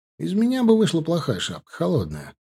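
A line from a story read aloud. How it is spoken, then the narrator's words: Confused, smiling. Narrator (Russian): растерянно улыбнулся Дима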